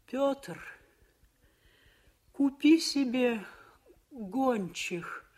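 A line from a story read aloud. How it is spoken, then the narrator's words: Moaned. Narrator (Russian): простонала она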